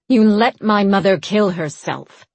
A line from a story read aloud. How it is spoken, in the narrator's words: Queen Fila snarled